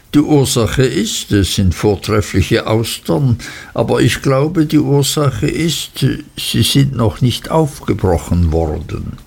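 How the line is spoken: Cheerful laughing. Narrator (German): lachte Traddles fröhlich

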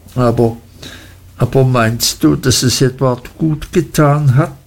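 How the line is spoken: Mother stammering humbly. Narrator (German): stammelte meine Mutter demütig

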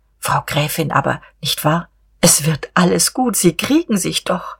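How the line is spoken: Quiet and gentle. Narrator (German): Diederich wagte endlich wieder, leise und schonend

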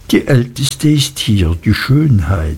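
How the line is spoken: Soft, confidential. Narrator (German): sagte Traddles leise und vertraulich

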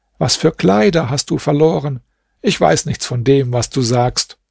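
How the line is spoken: Laughing hard. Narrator (German): Der Kalif musste heftig lachen und sagte

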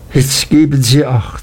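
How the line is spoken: Exclaimed. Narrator (German): rief sie aus

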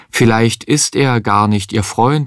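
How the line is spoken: Plain. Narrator (German): sagte Micha einmal

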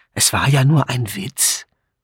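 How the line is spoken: Embarrassed murmur. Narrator (German): Edmund, der puterrot geworden war, murmelte

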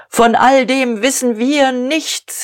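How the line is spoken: Shout. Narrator (German): rief Dieterich

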